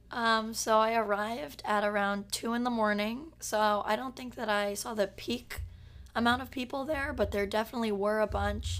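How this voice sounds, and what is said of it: Hoarse, weakened sick voice. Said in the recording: “I'm really sick, so I lost my voice”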